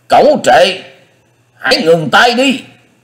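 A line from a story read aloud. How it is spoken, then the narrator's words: Roaring. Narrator (Vietnamese): Tứ Hải Thiên Dương Đông Phương Lượng gầm vang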